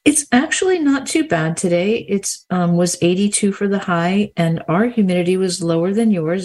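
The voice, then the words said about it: New Jersey-sounding accent. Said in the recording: “a Florida voice ... you won't accuse me of having a Florida accent. Most people think it's New Jersey.”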